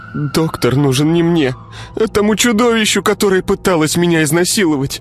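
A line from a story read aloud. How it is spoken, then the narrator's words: Sobbing. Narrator (Russian): всхлипнула девушка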